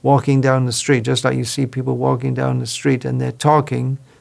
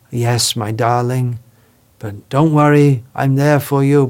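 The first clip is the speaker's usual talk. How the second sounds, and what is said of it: Soothing, gentle voice. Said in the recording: “in a soothing voice, giving some soothing”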